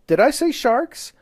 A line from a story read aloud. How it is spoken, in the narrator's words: I exclaimed hastily